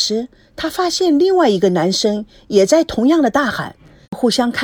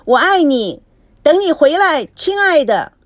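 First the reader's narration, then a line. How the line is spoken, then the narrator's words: Tearful shouting. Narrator (Chinese): 维康泪水模糊了视线，大喊着说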